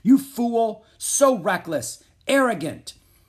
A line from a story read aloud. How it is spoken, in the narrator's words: the king turned and shouted at his son